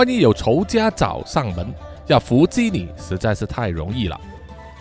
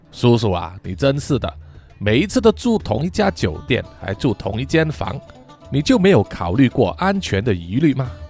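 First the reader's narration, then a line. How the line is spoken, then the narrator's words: Laughing. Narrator (Chinese): 汤米笑着说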